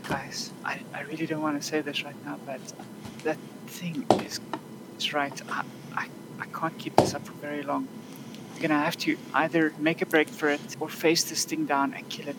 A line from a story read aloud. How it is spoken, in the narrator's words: Andromach is just going to semi-whisper